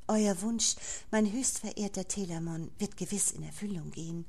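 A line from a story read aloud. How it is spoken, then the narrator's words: Plain. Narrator (German): antwortete sie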